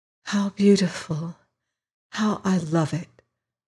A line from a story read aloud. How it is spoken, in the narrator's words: whispered the girl